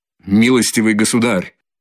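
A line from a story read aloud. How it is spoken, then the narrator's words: Angry, irritated flustered outburst. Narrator (Russian): злобно и раздражительно вскричал Лужин, весь вспыхнув и смешавшись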